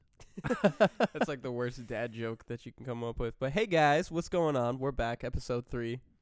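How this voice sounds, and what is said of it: Nasal, congested voice with sniffles. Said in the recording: “I have a little bit of a cold, so excuse my sniffles if I'm like, or just my nasally voice right now, too.”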